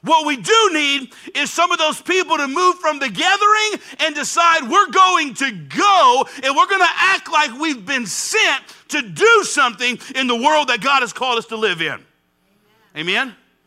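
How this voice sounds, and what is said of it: Shouting, impassioned preaching. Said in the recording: “I don't know why I'm shouting so hard so early in here. I'm not mad.”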